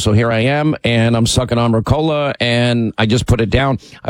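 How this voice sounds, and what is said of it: Sore, strained voice. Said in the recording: “your voice gets sore”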